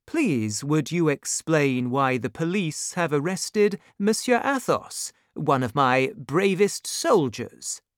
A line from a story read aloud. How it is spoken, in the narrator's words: said Monsieur de Tréville calmly